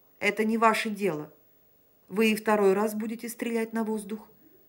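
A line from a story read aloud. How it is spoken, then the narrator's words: Plain. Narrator (Russian): спросил опять Санин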